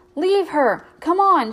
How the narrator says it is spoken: shouted

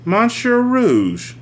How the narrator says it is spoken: she exclaimed

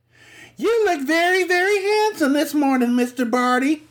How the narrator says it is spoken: squeaked Pixie Lee, who was something of a flirt

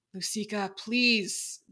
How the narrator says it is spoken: Dekai groaned

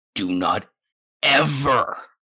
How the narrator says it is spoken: his father snarls

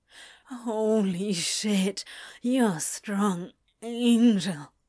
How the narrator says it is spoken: he moaned, the pleasure lazily spreading through his body

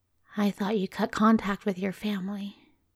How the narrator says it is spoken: said quietly

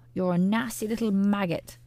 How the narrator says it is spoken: the voice screeched back

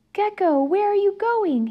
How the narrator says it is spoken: Owlette shouted

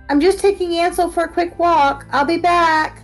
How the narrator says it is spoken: I yelled at the kitchen

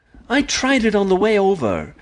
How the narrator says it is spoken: she said sadly

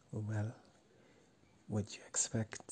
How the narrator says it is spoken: I whisper back

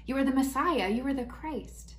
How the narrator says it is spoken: Peter answers quickly, as he always does

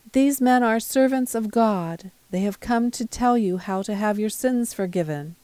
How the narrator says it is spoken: shouting

